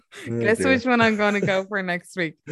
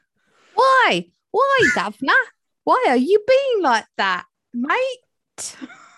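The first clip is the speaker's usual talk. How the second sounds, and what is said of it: Crappy school-play Oliver Twist accent. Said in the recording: “You sound like you're auditioning for Oliver Twist, like a really crappy school play version of it.”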